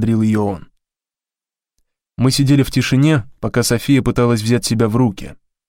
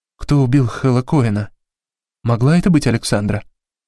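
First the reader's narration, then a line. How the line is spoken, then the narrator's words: Plain. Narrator (Russian): спросила София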